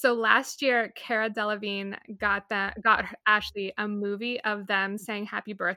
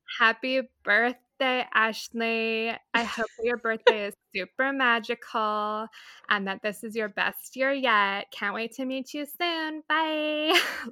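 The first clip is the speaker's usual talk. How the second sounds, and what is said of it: Flat-affect imitation of another person's voice. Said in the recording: “do a quick impression ... Their like flat affect is on full display”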